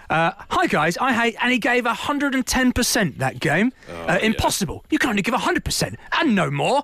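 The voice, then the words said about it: Imitates another person's voice. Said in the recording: “That's my impression of Tony. I don't know if you sound like that”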